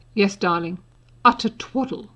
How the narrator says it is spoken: Mother said grimly

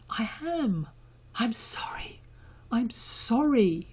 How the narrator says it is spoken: Draco choked out

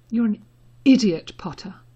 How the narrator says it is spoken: just as brokenly

